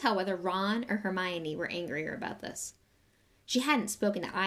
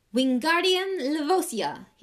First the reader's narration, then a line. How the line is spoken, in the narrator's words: he shouted